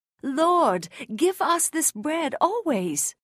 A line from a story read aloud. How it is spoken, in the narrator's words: Still thinking it was physical food, some exclaimed